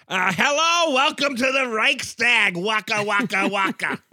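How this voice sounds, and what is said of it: Comic German accent, Fozzie Bear voice. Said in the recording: “German accent ... That's a German Fozzie Bear.”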